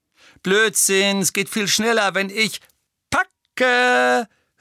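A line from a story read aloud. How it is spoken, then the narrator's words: Calling out. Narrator (German): rief Tonks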